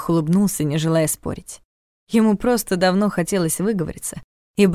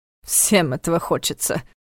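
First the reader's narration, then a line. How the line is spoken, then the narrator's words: Contemptuous snort. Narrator (Russian): Карл презрительно фыркнул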